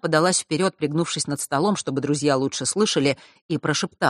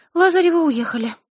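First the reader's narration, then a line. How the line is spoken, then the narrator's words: Sighing. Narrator (Russian): вздохнула Диана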